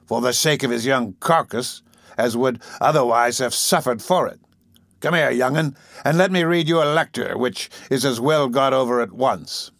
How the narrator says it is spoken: said Sykes, looking grimly at Oliver

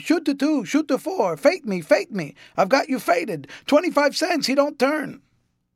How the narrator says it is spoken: a confusion of voices exclaiming

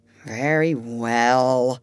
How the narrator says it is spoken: said sadly

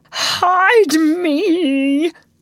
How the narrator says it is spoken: he cried hoarsely

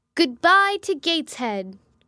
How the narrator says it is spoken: cried I

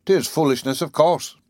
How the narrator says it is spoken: said roughly

